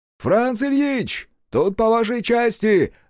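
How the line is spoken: Loud yell. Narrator (Russian): заорал Сашка

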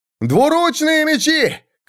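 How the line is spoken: Shout. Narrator (Russian): крикнул он

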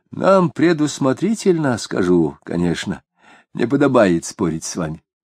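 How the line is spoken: Heavy sigh, then speaking. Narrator (Russian): Осип шумно вздохнул и сказал

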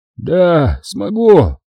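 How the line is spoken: Hollow muffled voice. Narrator (Russian): глухим голосом произнес Семен

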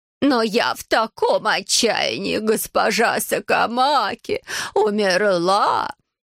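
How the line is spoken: Sobbing grieved stepmother. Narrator (Russian): Мачеха вновь разразилась рыданиями, видно от огорчения, что завещание нельзя получить сразу

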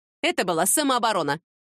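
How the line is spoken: Snorted. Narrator (Russian): фыркнула Люба

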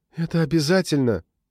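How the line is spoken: Moan. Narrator (Russian): простонала она

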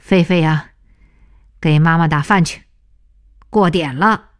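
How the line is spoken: Loud voice. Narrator (Chinese): 同时高声地说

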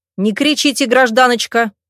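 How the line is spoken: Barked. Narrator (Russian): рявкнул второй доктор

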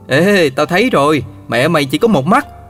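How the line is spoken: Child shouting. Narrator (Vietnamese): một trong những đứa bạn học trong lớp la lên

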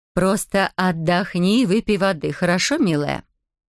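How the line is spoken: Plain. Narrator (Russian): сказала Матер

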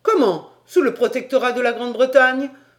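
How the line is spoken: Exclaiming. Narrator (French): s'écria Paganel

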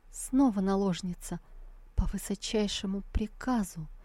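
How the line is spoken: Stammering, tearful. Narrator (Russian): Императрица, запинаясь, со слезами в голосе произнесла

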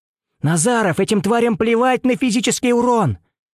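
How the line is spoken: Shouting. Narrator (Russian): закричал

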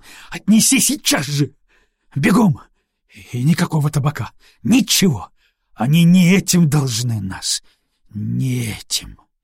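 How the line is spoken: Hoarse shout. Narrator (Russian): побелев, скривив рот, осипло крикнул

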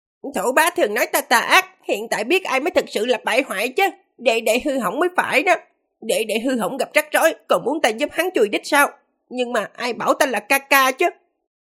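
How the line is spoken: Childish voice of giant infant. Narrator (Vietnamese): đứa trẻ sơ sinh với thân hình khổng lồ kia nói với giọng điệu trẻ con

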